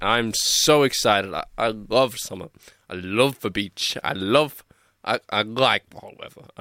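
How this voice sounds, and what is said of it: Slightly off, sick-sounding voice. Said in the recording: “my voice sounds a bit weird. I've been a little bit sick this week”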